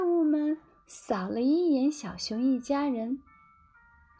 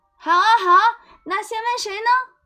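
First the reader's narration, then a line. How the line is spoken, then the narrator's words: Cheering monsters. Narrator (Chinese): 怪物们拍手叫好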